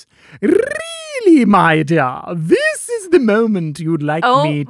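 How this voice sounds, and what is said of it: Loud theatrical character voice. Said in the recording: “in a very loud voice ... that's the voice they use ... It's a character from the internet.”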